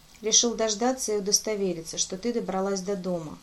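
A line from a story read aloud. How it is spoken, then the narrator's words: Gloomy. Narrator (Russian): мрачно ответил Дангур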